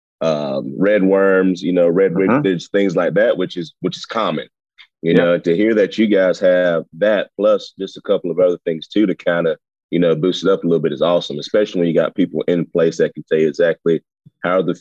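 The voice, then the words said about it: Southern American drawl. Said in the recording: “I have this southern drawl”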